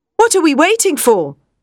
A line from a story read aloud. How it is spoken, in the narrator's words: cried Arthur